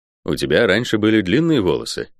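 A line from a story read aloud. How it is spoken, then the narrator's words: Plain. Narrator (Russian): спросил я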